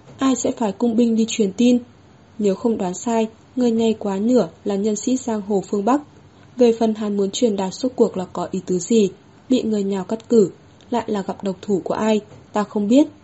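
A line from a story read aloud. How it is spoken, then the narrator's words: Amused with a laugh. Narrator (Vietnamese): Hứa Thất An bật cười một tiếng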